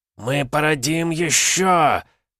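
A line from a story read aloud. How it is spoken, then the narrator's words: Hissing. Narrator (Russian): прошипел основатель рода Расхов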